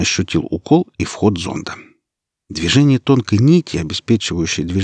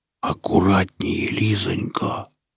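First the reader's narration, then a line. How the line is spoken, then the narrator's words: Whispered, feigning slight fear. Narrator (Russian): прошептал он, стараясь говорить чуточку испуганно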